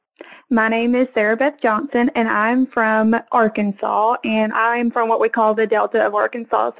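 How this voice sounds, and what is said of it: Southern Arkansas accent. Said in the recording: “a Southern Belle ... your beautiful accent ... a Southern Arkansas accent”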